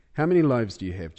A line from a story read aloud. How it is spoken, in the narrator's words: Jesus asked